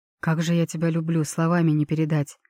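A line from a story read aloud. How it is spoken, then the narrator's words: Joyful breathless exhale. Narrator (Russian): Выдохнул сияющий от счастья Эльтаир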